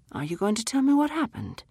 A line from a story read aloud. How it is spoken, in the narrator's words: His voice was gentle